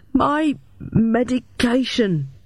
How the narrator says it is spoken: stammered

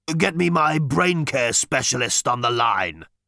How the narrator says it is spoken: he croaked

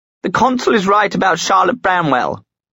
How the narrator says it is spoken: she exclaimed

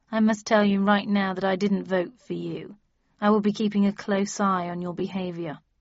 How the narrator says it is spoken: he said dryly

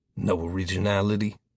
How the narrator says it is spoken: Future Tyler muttered

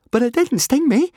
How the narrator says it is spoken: Fishlegs said eagerly

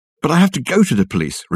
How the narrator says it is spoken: Richard exclaimed

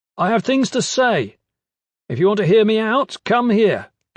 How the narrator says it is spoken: Kip shouted

